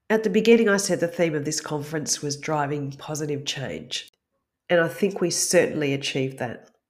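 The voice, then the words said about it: Strained voice, nearly losing it. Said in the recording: “before I lose my voice. ... despite the cold”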